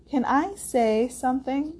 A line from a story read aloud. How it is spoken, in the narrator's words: she asked timidly